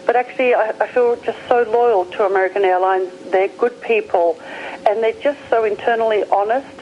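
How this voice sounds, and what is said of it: Australian accent. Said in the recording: “I hear the accent ... your accent is a little different. Is it Australian? ... It is. You got it right. ... I'm an Aussie.”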